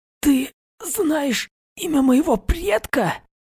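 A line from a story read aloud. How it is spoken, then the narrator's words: Hoarse rasp. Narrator (Russian): Прохрипел он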